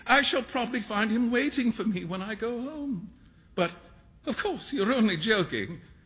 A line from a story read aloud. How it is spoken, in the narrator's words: cried Hughie